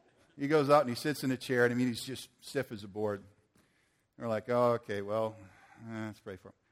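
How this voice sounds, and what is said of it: Usual voice. Nothing is said of it.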